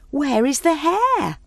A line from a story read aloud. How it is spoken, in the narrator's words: they called out